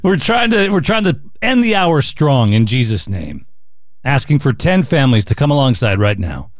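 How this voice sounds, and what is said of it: Tired, worn-out voice. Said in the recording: “You can hear it in my voice. I'm getting kind of tired ... My voice is going.”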